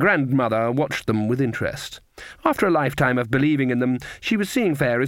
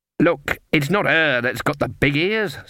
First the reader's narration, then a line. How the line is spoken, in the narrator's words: snapped Fairy Daisy